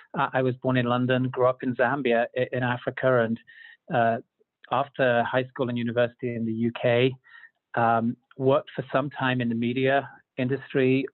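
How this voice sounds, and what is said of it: Non-American English accent. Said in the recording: “I'm not from Utah, as my accent may uh, indicate.”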